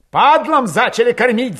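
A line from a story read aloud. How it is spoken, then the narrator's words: Heated shout. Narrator (Russian): запальчиво выкрикнул Мишка Кошевой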